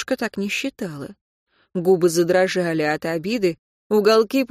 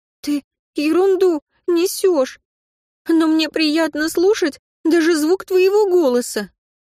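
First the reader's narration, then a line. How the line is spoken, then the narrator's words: Halting, broken voice. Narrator (Russian): Прерывистым голосом произнесла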